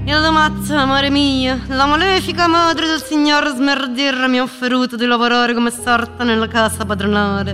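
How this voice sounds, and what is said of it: Reads in a female character's voice. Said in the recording (Italian): “Ora leggo il biglietto, però con la voce di Zuleia dentro la testa.”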